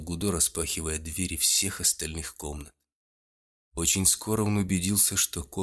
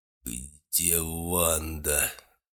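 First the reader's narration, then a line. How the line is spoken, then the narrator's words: Barely squeezed out. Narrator (Russian): едва выдавил он из себя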